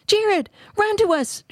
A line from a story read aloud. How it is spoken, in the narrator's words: shrieked Nephi